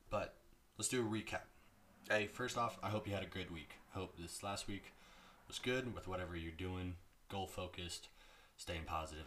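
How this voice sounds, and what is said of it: Sick, strained voice. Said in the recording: “apologize for the voice. I am slightly sick right now. My voice is taking a toll. My voice sounds worse than I feel”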